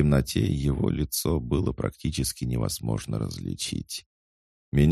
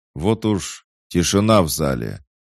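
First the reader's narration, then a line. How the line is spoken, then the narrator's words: Loud. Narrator (Russian): громко сказал мужчина, вышедший на сцену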